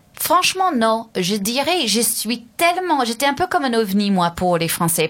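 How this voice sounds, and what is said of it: Speaks French with a foreign accent. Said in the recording (French): “moi, j'ai toujours mon accent”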